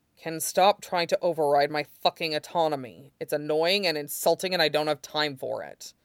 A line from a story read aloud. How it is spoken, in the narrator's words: Aizawa said bitterly through his teeth